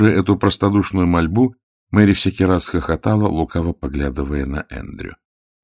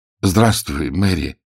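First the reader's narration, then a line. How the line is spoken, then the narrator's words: Slightly hoarse voice. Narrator (Russian): голос у него звучал слегка хрипловато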